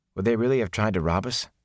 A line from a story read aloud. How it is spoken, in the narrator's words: he asked quietly